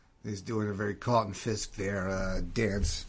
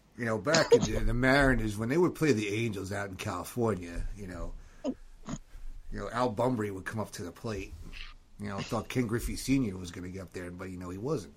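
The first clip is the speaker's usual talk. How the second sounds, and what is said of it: Peter Winston impression, weak Boston accent. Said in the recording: “not a very good Peter Winston impression, by the way. Not enough Boston in there ... It was a good impression.”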